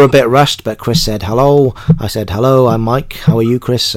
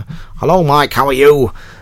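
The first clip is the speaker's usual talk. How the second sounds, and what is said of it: Poor imitation of another person's voice. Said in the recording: “Another bad impression there, sorry.”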